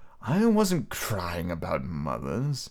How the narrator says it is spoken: he said rather indignantly

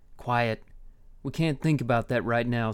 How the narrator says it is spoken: said Keen

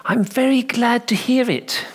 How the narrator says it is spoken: he said, in that solicitous and kindly tone often possessed by men of the cloth

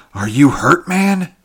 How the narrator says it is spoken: gasped Taurus, still bewildered by the stunning swiftness of that touch-and-go episode

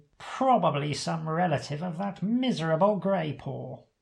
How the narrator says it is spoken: the hawk grumbles

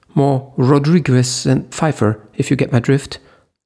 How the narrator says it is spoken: Leo said in his panic voice

